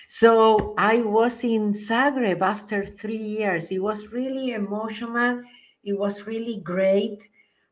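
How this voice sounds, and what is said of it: Argentinian-accented English. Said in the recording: “English with an Argentinian accent”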